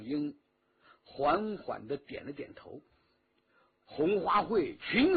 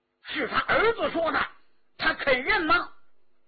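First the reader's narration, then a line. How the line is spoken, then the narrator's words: Sudden cry. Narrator (Chinese): 缩在一边的万庆兰突然叫道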